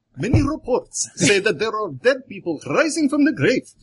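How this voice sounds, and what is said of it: Poor put-on Indian accent. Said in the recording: “that was a terrible Indian accent”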